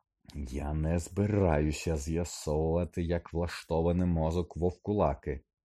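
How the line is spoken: Hiss. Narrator (Ukrainian): засичав Снейп

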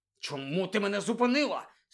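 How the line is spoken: Angry question. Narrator (Ukrainian): сердито запитав Рон

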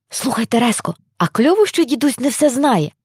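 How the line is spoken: Whispering into ear. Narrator (Ukrainian): прошепотів Лука сестричці на вухо

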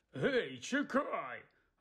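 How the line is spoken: Angry bark. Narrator (Ukrainian): гаркнув дядько Вернон, люто

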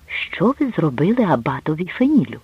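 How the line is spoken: Whisper. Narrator (Ukrainian): Вони продовжували розмову пошепки

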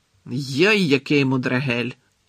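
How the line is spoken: Growl. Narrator (Ukrainian): прогарчав Гегрід

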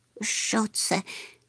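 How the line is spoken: Terrified whisper. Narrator (Ukrainian): нажахано прошепотів Чмих

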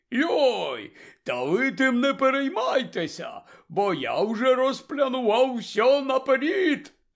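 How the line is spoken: Joyful announcement. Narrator (Ukrainian): Радісно повідомив Гегрід

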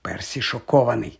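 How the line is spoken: Soft whisper. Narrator (Ukrainian): тихенько шепнув Гаррі Джордж

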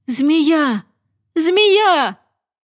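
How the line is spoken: Breathless shout. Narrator (Ukrainian): мимоволі затамувавши подих, закричав

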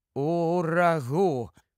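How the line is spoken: Mutter. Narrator (Ukrainian): пробурмотів Кордл

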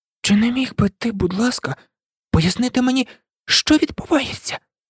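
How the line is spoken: Quiet request. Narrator (Ukrainian): Тихо попросила Герміона

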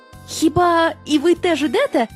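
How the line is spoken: Surprised group exclamation. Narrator (Ukrainian): здивовано вигукнули друзі

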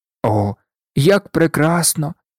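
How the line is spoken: Exclaimed. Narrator (Ukrainian): вигукнув Сем

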